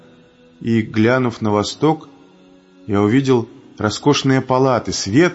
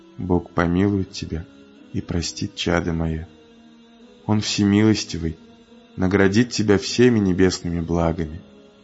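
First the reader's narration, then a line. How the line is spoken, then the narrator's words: Quiet. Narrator (Russian): Он тихо сказал мне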